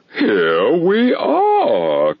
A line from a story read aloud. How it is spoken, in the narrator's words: cried the king, laughing at his acute discovery of the coincidence